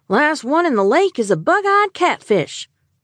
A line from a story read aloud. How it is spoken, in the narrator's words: Amos yelled